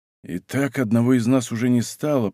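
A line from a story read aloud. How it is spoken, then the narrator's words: Whisper. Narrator (Russian): прошептал Д'Артаньян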